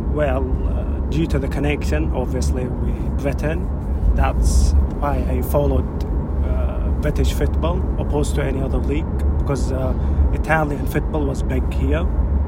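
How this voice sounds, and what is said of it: Distinct northern Scottish accent. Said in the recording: “you've got a distinctively northern Scottish accent”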